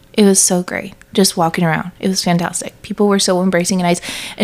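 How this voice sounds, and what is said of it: Speaks with a non-local accent. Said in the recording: “people know that I am not from there based on not only how I look, but my voice, my accent.”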